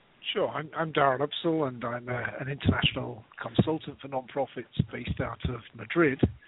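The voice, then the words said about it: British accent. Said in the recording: “as you can probably tell from both of our accents, I hail from the UK originally”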